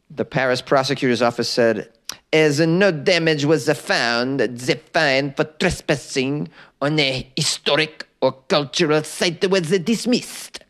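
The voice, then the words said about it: Exaggerated comic French accent. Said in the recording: “This is the worst a French accent of all time. ... the Monty Python impersonation of a French person”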